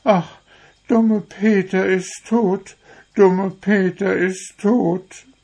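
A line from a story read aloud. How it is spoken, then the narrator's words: Girls sobbing sadly. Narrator (German): die Mädchen ganz traurig und waren gar nicht zu trösten, schluchzten immer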